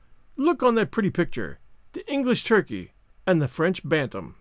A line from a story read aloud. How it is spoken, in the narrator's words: said Marguerite, with one of her merry, infectious laughs